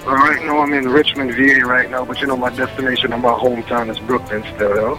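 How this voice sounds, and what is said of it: Speaks with a noticeable accent. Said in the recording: “I love the accent.”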